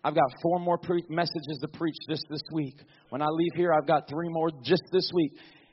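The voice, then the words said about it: Tired, strained voice giving out. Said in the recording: “My voice is slowly giving out.”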